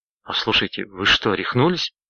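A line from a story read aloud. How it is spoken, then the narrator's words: Breathless exclamation. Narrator (Russian): выдохнул Дрейтон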